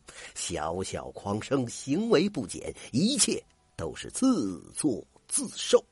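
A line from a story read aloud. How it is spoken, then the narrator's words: Sneering. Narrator (Chinese): 许大学士口中发出了一声冷笑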